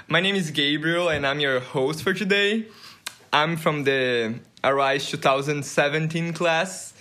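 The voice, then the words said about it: Brazilian accent. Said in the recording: “I'm from Brazil. And maybe you noticed that I have an accent.”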